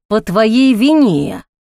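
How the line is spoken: Angry hiss. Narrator (Russian): гневно прошипел Ник

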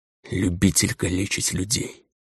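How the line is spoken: Muffled whisper, cripple. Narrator (Russian): прошептал глухо калека

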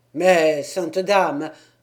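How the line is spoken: Exclaimed. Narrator (French): s'écria Bertrand

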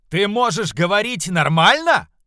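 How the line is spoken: Shouting. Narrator (Russian): прокричал Пальдаар

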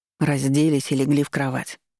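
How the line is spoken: Gloomy voice. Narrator (Russian): мрачным голосом произнёс Вильдаш

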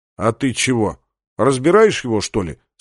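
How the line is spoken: Plain. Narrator (Russian): спросил Сандерс

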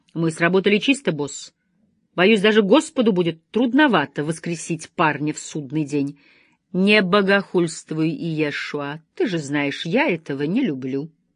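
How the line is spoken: Stern. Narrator (Russian): строго сказал брат Гебриэл

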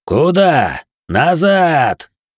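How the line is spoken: Growl. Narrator (Russian): Аймар зарычал

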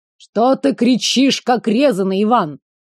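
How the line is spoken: Grumbling. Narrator (Russian): Проворчали в ответ

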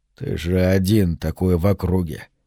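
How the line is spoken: Grumbled. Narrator (Russian): проворчал Конан

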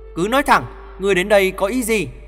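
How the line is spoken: Raised voice. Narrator (Vietnamese): Chàng cao giọng nói

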